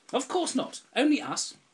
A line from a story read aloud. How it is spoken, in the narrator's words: the ugly sisters shouted